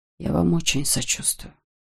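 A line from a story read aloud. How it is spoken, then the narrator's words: Whisper. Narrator (Russian): прошептал он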